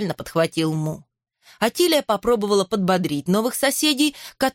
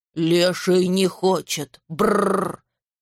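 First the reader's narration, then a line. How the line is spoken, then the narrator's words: Grumbling old man. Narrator (Russian): проворчал дедушка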